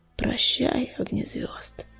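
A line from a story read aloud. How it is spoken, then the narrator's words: Hoarse wheeze. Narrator (Russian): прохрипел Буран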